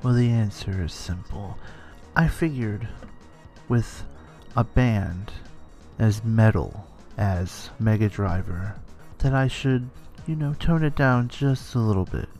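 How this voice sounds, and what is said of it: Calm NPR-style radio voice. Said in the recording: “doing an NPR type voice”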